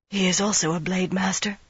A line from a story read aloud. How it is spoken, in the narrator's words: she breathed